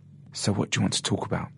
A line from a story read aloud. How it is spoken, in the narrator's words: whispered Richard